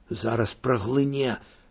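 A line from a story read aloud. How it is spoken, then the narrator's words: Whispered. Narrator (Belarusian): шэптам сказаў Алесю Андрэй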